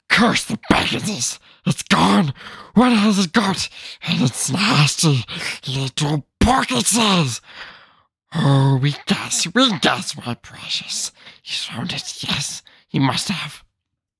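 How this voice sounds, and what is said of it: Gollum-like creature character voice. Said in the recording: “It's not my best impersonation I can do, but I'm trying ... good voice”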